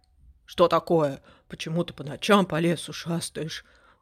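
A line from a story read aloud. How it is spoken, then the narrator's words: Grumbling owl. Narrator (Russian): пробурчала сова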